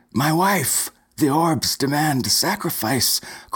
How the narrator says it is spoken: cried Stuart Stevenson

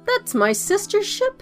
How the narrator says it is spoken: she exclaimed

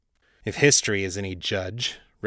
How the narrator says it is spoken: Richter growled

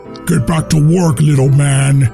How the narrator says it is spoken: Santa would growl into his face

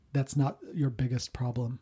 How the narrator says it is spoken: a whisper behind you that says

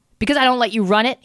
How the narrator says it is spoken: he snapped

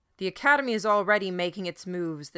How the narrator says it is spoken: the shepherd called out

